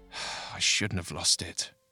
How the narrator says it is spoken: muttered

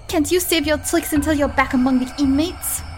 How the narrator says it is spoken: the angry victim exclaimed

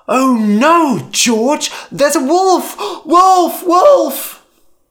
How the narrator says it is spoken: again, cried

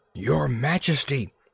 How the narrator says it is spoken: he whispered softly

